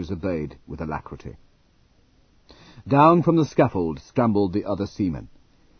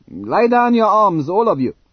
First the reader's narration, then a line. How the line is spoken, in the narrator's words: the subaltern yelled